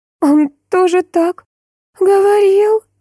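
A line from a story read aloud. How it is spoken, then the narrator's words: Forced out, reluctant. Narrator (Russian): Наконец выдавила Мия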